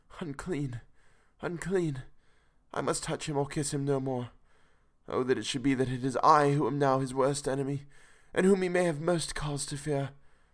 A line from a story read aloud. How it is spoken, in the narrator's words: with a low wail, and whispered, amidst choking sobs